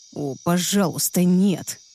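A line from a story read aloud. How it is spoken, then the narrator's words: Moaning plea. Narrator (Russian): простонал Люциан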